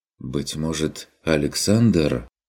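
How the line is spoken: Suggesting. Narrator (Russian): предположил фон Эббенхольц

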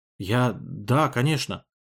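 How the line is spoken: Strained, forced words. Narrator (Russian): выдавил он

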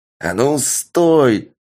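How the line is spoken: Yelling. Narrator (Russian): заорал мужик

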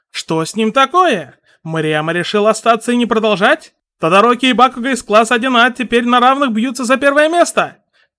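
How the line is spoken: Shouted. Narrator (Russian): крикнул сущий миг

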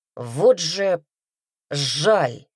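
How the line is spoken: Self-censored growl. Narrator (Russian): рыкнул Редрик, в последний момент оцензурив высказывание

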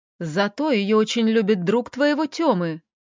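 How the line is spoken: Exclaimed. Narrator (Russian): воскликнула мудрая мама

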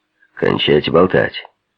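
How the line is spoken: Policeman's bark. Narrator (Russian): рявкнул один из полицейских на Мейсона

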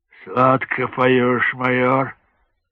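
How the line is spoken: Sighing. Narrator (Russian): снова вздохнул Жангалиев

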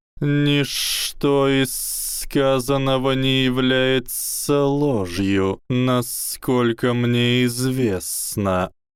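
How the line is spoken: Hissing. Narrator (Russian): прошипел профессор Квирл

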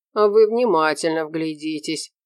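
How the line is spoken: Ingratiating request. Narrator (Russian): попросил следователь вкрадчивым голосом

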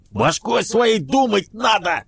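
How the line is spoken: Furry creature yelling. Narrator (Russian): Заорал мохнатый

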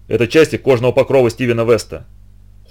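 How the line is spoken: Cold reply. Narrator (Russian): холодно ответил доктор

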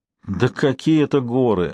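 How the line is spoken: Relieved sigh. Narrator (Russian): облегченно вздохнул Норман

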